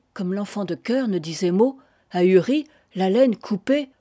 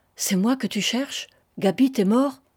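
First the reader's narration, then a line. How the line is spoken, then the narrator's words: Halting, choked, abrupt question. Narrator (French): D'une voix saccadée, qui s'étouffait dans sa gorge, elle lui demanda, à brûle-pourpoint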